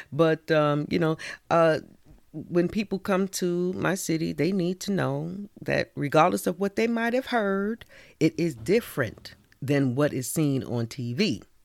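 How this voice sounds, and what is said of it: New York accent. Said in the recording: “That New York accent... we do have an accent, but it's all good. That's that New York accent”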